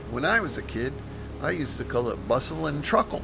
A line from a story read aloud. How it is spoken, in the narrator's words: I gave a chuckle and mentioned